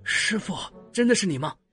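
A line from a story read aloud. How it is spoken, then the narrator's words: Sly low voice. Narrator (Chinese): 她暗戳戳的对欧若野低声的说了句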